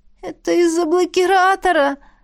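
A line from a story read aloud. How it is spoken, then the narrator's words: Hopeless moan. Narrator (Russian): обреченно простонала я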